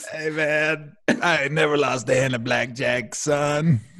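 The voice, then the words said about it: Imitates another person's voice. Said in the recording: “that impersonation of Dosh ... that Mosh Ribs voice you just gave us”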